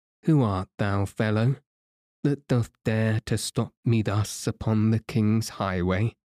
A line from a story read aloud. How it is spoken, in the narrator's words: said the lean man, in a dry, sour voice